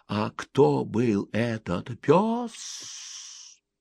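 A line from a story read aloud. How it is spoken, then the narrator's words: Mysterious hissing whisper. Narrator (Russian): Взрослый, если он читает книгу вслух ребенку, должен обязательно спросить малыша таинственным свистящим шепотом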